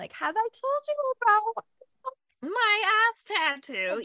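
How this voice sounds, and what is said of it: Old grandma voice, badly done. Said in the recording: “That was my grandma voice. It was really bad.”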